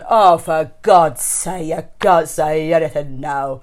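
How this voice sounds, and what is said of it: Imitates another person's voice. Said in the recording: “that is my impression of your mother”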